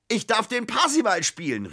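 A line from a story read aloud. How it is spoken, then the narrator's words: Excited shout, bursting in. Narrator (German): rief er, als er in die Wohnung stürmte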